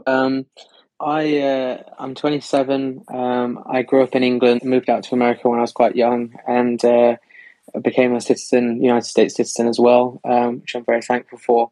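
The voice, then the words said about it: English-accented speech. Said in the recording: “a cool cat with a great accent”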